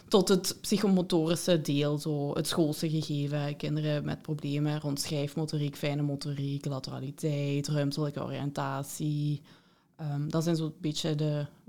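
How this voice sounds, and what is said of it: Heavy Limburg Dutch accent. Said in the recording (Dutch): “zwaar Limburgs accent”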